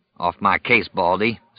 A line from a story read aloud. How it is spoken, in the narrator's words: Stu growled